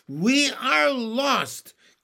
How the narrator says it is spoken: cried the ladybug

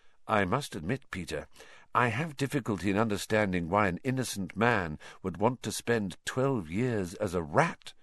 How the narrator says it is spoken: said Lupin evenly

